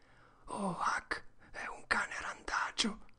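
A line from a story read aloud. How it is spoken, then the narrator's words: Barely audible whisper. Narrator (Italian): Il suo sussurro si udiva a malapena quando disse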